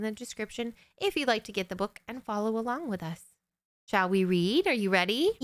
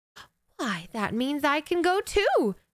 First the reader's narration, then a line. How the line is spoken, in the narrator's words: exclaimed Cinderella